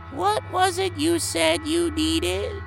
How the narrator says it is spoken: His voice is raspy, but melodic

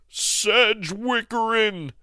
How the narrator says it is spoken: cried the choosing jock

